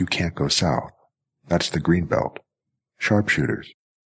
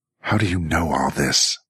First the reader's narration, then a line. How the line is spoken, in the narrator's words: Jackie snarled